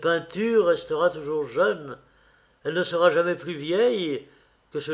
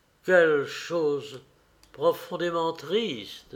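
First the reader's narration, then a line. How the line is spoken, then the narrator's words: Murmured. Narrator (French): murmurait Dorian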